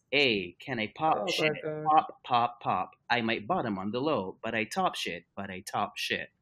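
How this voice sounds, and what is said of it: Imitates a Siri voice assistant. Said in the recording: “I'm gonna read it in my best Siri voice.”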